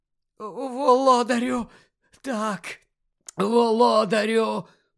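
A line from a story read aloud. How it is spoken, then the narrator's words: Relieved hoarse rasp. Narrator (Ukrainian): полегшено захрипів Руквуд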